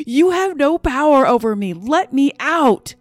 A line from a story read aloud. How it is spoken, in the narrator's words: I screamed at the top of my lungs